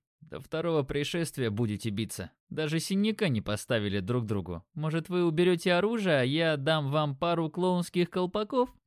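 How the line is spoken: Chuckling. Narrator (Russian): Димон не выдержал и хохотнул

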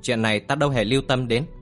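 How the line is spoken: Cold dismissive laugh. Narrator (Vietnamese): Kim Phi Hùng cười nhạt

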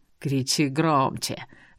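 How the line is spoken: Angry hiss in ear. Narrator (Russian): зло зашипел мне на ухо Эр

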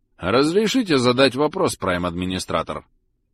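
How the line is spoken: Formal tone. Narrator (Russian): Официальным тоном обратился Просад

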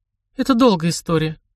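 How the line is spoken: Sighing. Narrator (Russian): Рангрид вздохнула

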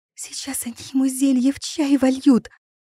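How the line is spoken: Terrified hiss. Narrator (Russian): в ужасе зашипела Тилли

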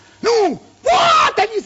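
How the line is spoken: Boy shouting. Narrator (Russian): закричал парнишка

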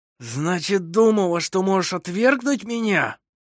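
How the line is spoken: Hoarse wheeze. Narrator (Russian): сипел он

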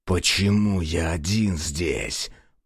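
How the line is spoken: Hissing. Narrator (Russian): прошипел он

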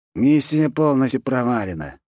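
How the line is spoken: Glum, dejected. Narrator (Russian): уныло сказал кто-то из них

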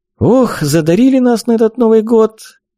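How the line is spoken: Cheerful mock complaint, hostess. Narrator (Russian): радостно пожаловалась хозяйка дома

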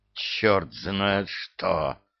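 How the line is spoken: Hissing. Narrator (Russian): прошипел

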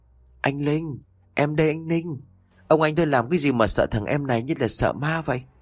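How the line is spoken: Hoarse voice. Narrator (Vietnamese): cất tiếng khàn khàn lên nói

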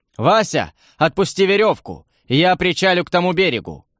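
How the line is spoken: Shouted while smiling. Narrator (Russian): крикнул, улыбаясь

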